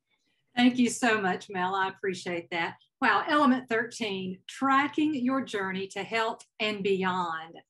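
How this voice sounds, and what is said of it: Southern American accent. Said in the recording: “adorable Southern accent”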